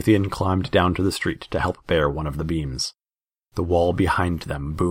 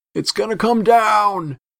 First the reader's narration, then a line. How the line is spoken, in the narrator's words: shouted Xenon